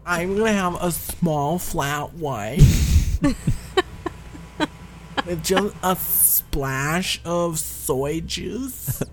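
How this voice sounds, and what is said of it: Nasal affected coffee-shop voice. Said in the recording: “Who do you talk to that sounds like that? ... I'm closing off my nose to it ... talk through your nose”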